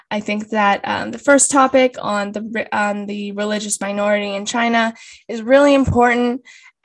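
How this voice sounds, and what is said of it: Strained, fading voice. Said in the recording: “I'm losing my voice currently ... I hope that it's not too unbearable”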